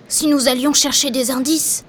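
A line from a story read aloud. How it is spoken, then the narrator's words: Whispered. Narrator (French): chuchote Mickey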